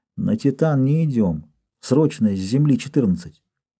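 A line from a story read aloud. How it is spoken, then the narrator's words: Quiet. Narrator (Russian): Малыш сказал тихо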